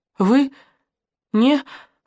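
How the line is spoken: Weak, breathless. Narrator (Russian): выдохнула Наташка слабо

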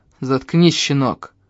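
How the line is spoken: Growled. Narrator (Russian): рыкнул Лаум

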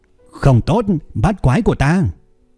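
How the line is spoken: Shouting loudly. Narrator (Vietnamese): Cung Nhị Cẩu hét lớn

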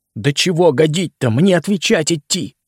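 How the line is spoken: Pleading. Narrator (Russian): взмолился

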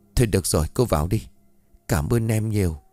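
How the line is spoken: Softened, sighing. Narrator (Vietnamese): Trinh có chút mềm lòng, thở dài

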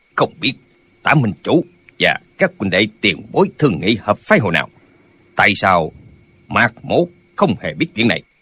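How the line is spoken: Cold voice. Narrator (Vietnamese): có người ở dưới đài lạnh lùng nói

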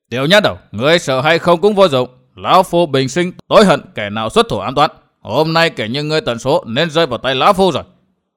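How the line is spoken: Furious roar. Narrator (Vietnamese): Tà Kiếm tự hồ đã nổ khí xung thiên gầm lên

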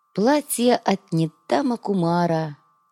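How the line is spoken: Dreamy girl's drawl. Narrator (Russian): мечтательно протянула девушка

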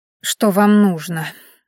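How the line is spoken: Tired question. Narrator (Russian): устало спросила она

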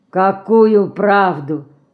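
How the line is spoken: Muffled question behind hand. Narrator (Russian): не отрывая от лица руки, глухо спросил пан

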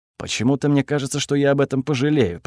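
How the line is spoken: Grumble. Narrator (Russian): проворчал

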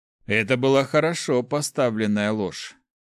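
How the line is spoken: Wry snort. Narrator (Russian): хмыкнул клирик

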